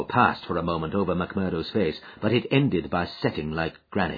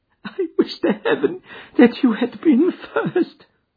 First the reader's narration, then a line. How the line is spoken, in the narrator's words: she sobbed